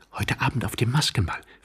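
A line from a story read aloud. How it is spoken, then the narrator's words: Quick whisper. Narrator (German): flüsterte sie schnell Tworogow zu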